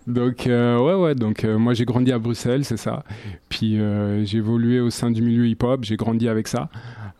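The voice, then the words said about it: Belgian French accent. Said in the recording (French): “Tu n'es pas d'ici, tu viens de Bruxelles ... Je ne suis pas d'ici, ouais, je pense que ça s'entend dans l'accent.”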